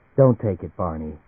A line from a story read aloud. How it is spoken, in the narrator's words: she said quietly